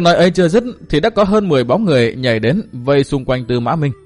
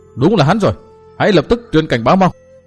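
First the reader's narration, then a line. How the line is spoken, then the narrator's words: Group shouting loudly. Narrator (Vietnamese): Chúng hét to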